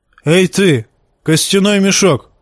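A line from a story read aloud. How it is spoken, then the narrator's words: Barking shout. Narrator (Russian): рявкнул Тормунд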